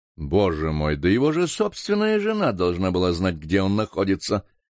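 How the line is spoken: Displeased tone. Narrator (Russian): сказал почмейстер недовольным тоном

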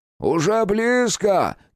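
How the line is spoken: Shouted. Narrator (Russian): крикнул старший крестьянин

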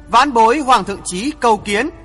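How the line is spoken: Loud call. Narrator (Vietnamese): Hoàng Thượng Chí to tiếng nói

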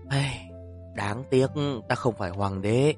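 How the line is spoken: Man sighing. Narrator (Vietnamese): Nam tử kia giống như thần tiên, liền thở dài một tiếng nói

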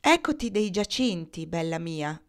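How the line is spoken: Plain. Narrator (Italian): disse Eugenia d'Aragona

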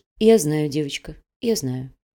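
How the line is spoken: Quiet. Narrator (Russian): негромко произнесла Даша

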